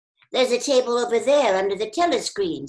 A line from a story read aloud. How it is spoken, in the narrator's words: said Sim